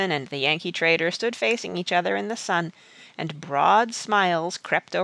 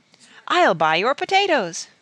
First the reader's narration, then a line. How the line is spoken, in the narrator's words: exclaimed Monsieur Gaunt